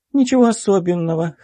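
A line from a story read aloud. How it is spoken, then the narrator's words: Snorting. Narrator (Russian): хмыкнула Лана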